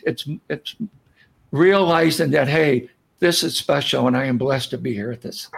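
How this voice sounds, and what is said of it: Speaks with emotion in voice. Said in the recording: “I get a little emotional thinking about it.”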